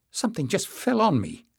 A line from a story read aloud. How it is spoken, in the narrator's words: exclaimed